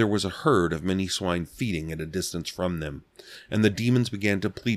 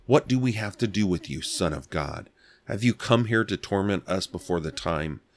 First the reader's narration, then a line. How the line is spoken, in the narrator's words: they cried out, saying